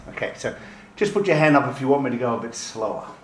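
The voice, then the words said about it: Non-American accent, quick speech. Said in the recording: “I speak quickly sometimes, and with a non-American accent”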